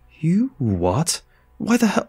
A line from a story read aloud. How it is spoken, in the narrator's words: I splutter